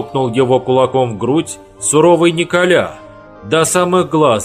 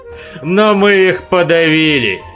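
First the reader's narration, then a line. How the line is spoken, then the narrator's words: Loud laughing. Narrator (Russian): Захохотал Хуга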